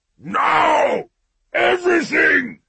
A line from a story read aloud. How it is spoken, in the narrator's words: roared